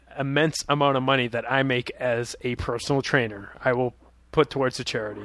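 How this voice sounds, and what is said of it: Sarcastic tone. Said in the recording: “that's sarcasm if you don't, you know, you didn't hear it in my voice.”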